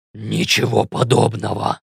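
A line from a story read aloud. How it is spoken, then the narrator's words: Growling shapeshifter voice. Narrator (Russian): рычащим голосом ответил перевертыш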